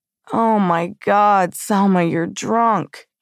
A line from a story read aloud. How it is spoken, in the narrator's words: he moaned, genuine concern